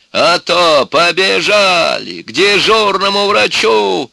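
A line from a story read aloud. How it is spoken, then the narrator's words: Shouting. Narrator (Russian): Она кричала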